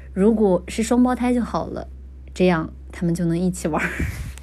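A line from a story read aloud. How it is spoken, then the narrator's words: Gentle, smiling. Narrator (Chinese): 叶凡温柔一笑，道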